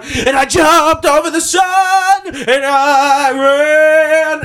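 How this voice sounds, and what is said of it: Imitates a rock singer's voice. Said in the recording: “That wasn't a bad Bruce Dickinson impression, though, was it? ... I wish you would have got higher”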